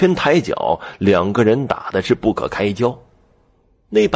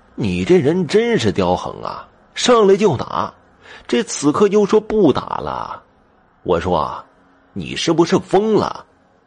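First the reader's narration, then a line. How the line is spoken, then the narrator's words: Wry, bitter laugh. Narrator (Chinese): 那人苦笑着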